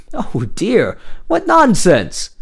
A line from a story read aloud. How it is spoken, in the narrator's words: exclaimed the elder